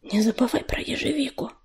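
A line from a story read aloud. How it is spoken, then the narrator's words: Whispered into ear. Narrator (Russian): шепнула Листочка на ухо сестре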